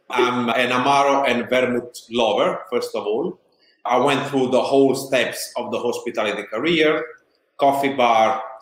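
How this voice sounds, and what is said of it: Strong Italian accent. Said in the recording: “As you can hear from my accent, very strongly Italian.”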